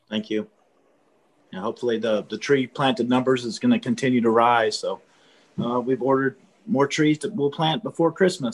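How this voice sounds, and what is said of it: Hoarse, failing voice. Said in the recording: “I'm losing my voice ... get his voice back”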